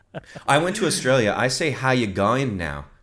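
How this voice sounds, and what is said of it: Put-on Australian accent. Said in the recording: “I have a crazy accent”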